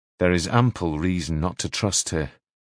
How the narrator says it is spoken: he said coldly

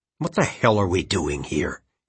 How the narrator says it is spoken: He hissed

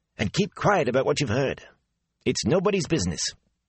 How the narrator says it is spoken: the innkeeper said sharply

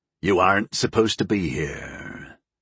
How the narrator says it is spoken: Dark Courage rumbled

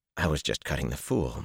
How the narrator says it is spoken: Matt muttered

